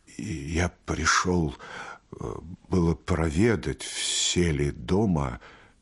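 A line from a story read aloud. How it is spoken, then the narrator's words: Quiet, faltering reply. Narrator (Russian): тихо отвечал Архип, запинаясь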